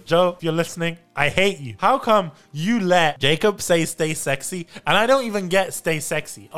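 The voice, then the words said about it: British accent. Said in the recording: “I don't do it as good with my British accent. It doesn't sound right.”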